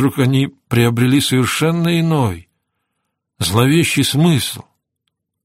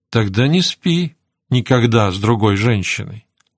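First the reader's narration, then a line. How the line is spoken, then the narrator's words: Soft. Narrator (Russian): мягко заявила она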